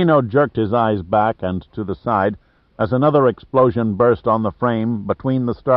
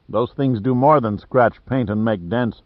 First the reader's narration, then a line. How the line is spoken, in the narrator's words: said Giordino